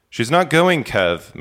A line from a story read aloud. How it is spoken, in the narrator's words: McClellan says